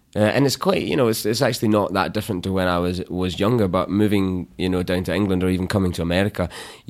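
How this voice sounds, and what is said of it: Glaswegian Scottish accent, slightly anglicized. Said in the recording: “in Glasgow you can just speak in vowel sounds, and you don't really need consonants... oh, you sound English... my accent, I didn't deliberately change it”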